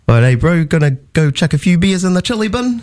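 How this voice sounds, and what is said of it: Put-on New Zealand accent. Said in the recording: “Give me a really good Australian accent and a New Zealand accent ... chuck a few beers in the chili bin in Kiwi”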